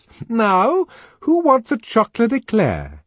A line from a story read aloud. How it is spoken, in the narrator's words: she asked in a loud, cheerful tone